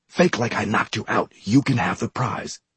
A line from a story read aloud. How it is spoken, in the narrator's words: I whispered